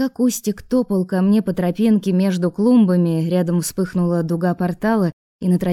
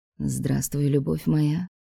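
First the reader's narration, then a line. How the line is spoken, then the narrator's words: Purring. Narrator (Russian): промурлыкал Алекс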